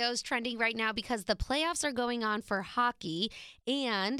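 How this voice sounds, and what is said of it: Usual voice. Nothing is said of it.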